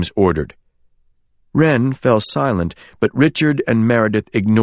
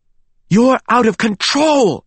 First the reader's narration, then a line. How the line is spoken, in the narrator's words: yelled